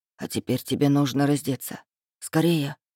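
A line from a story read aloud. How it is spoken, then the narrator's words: Whisper. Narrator (Russian): шепнул он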